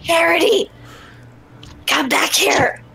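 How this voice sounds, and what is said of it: Whisper-shouting. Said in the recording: “Going to whisper shout. ... I'm whisper shouting”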